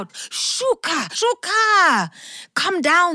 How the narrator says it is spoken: And some of those people called out

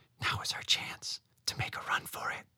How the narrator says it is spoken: Noka whispered

